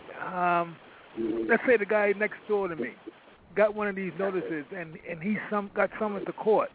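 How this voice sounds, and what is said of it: East Coast American accent. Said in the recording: “I love your East Coast accent.”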